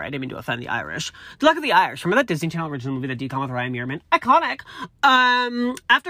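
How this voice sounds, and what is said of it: Usual voice. Nothing is said of it.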